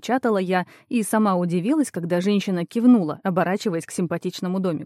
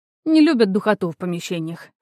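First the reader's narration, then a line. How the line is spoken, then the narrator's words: Snorting. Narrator (Russian): фыркнула Нииса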